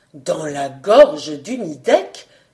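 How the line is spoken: Good man exclaiming. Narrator (French): s'écria le brave homme

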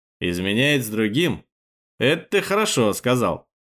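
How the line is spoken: Amused snort. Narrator (Russian): хмыкнул Быковский

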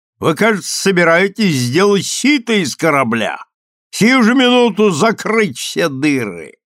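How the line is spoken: Shouting. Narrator (Russian): Шкипер кричал

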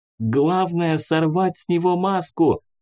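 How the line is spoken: Shouting over noise. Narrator (Russian): крикнула она, стараясь перекричать шум вокруг

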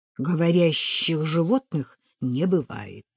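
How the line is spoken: Through gritted teeth. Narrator (Russian): сквозь зубы процедил Росков

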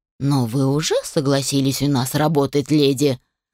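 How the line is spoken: Rather menacing. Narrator (Russian): довольно грозно произнес Кобальт

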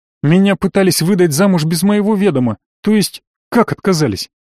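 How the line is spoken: Abrupt change of topic. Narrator (Russian): Резко перескочила Таня

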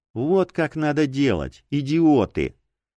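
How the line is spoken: Smirking. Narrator (Russian): Хмыкнул в ответ на молчание

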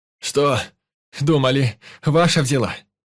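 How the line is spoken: Shouting and laughing. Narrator (Russian): Кричал и смеялся Валентин

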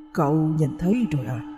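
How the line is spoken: Hoarse male voice. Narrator (Vietnamese): một giọng đàn ông khàn khàn cất lên từ sau lưng anh

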